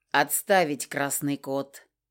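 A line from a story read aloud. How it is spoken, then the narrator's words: Through gritted teeth. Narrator (Russian): соизволил процедить он сквозь зубы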